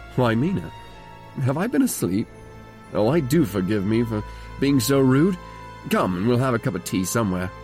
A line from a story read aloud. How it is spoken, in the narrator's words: he woke up and said to me quite cheerfully